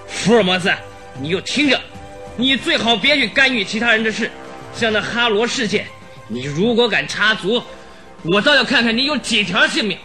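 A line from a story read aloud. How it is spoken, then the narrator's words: Harsh, stern brute. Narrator (Chinese): 那黑牛一般的家伙接着又厉声地说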